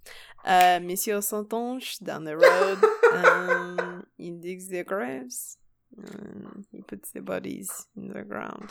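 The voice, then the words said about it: Good put-on French accent. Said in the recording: “Your French accent is so good.”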